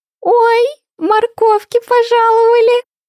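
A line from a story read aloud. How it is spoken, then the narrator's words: Cheerful squeal. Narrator (Russian): Весело взвизгнула Винни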